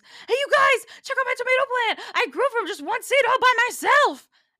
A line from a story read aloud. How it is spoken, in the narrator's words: screams